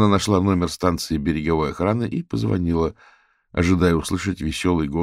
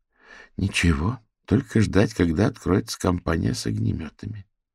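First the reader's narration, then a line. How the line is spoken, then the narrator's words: Sighed. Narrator (Russian): вздохнула Фиона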